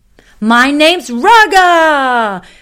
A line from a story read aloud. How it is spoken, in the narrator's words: exclaimed the lion